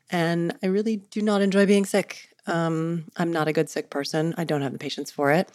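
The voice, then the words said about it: Voice sounds like a cold. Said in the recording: “as you can probably hear by the sound of my voice, I have a little cold”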